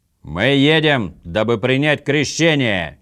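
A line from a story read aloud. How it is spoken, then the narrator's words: Impatient shout. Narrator (Russian): нетерпеливо крикнул Орм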